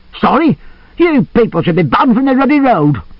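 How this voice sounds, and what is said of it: Angry Lancashire accent. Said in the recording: “He had a Lancashire accent.”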